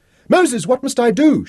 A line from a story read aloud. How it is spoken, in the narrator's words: she cried